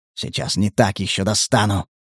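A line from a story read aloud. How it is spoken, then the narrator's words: Hissing. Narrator (Russian): Прошипел коллекционер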